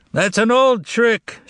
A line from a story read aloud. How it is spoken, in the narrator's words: shouted someone from the balcony